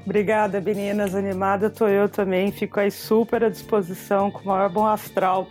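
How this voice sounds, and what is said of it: São Paulo Brazilian Portuguese accent. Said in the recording (Portuguese): “qual que é o meu sotaque ... é de paulista ... sou paulistana do Bexiga, italianoide”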